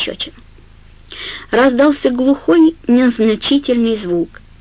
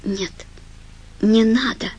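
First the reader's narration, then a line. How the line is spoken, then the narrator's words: Quiet. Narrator (Russian): тихо сказала Фрэнни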